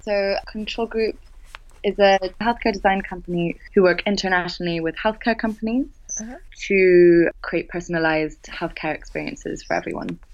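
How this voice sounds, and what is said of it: British accent, polished radio voice. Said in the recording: “she's British ... put on my best radio voice ... you have a fantastic voice ... someone with a British accent”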